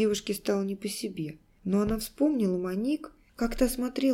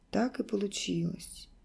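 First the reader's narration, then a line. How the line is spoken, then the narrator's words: Very quiet. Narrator (Russian): произнесла Алиса очень тихо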